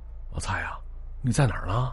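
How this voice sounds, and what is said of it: Quiet, hushed question. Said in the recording (Chinese): “对着电话小声问了一句”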